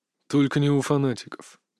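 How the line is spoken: Quiet. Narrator (Russian): тихо сказал Иван

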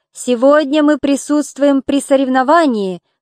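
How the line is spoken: Loud voice. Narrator (Russian): сказал Приам громким голосом

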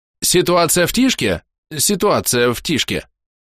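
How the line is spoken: Sudden, loud and clear. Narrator (Russian): вдруг громко и ясно

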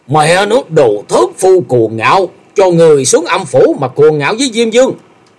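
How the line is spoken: Furious roaring. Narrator (Vietnamese): Gã tiêu sư điên tiết gầm lên

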